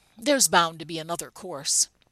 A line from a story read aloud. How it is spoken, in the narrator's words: sighed